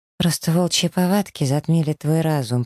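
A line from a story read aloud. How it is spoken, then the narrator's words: Dull, muffled voice. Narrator (Russian): произношу глухо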